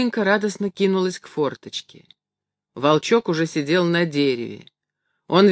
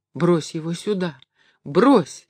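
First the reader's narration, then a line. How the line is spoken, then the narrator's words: Pleading voice. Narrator (Russian): сказала она умоляющим голосом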